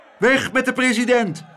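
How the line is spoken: Shouting voices. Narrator (Dutch): schreeuwden

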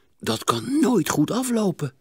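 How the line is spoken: Whispering. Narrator (Dutch): fluisterde Hielke

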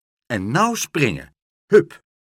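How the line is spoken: Heron calling sternly. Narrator (Dutch): riep de reiger streng

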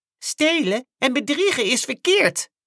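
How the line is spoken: Squeak. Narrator (Dutch): piepte Thomas

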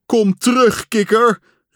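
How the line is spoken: Calling out. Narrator (Dutch): riep

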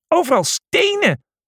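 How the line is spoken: Squeaked. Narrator (Dutch): piepte Felix

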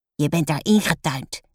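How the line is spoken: Plain. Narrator (Dutch): zegt Lotte

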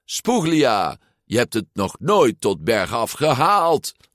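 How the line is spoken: Laughing. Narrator (Dutch): lachte Ercole

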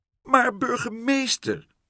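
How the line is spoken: Wailing. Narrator (Dutch): jammerde mevrouw Helderder

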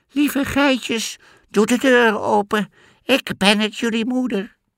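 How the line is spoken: High-pitched disguised voice. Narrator (Dutch): zei hij met een hoog stemmetje

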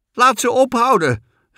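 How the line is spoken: Rich man calling out. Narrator (Dutch): riep de rijke man

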